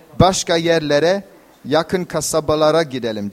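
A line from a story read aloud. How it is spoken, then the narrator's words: Plain. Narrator (Turkish): dedi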